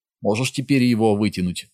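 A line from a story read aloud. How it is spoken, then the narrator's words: Plain. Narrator (Russian): спросил он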